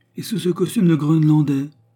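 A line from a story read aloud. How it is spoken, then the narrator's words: Exclaiming. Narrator (French): s'écria-t-il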